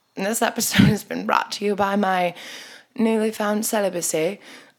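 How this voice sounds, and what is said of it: Put-on British accent. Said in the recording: “I just spoke in a British accent.”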